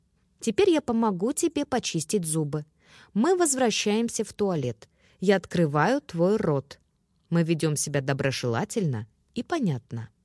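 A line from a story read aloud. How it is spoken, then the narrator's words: Calm, gently confident. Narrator (Russian): спокойно, с мягкой уверенностью сказать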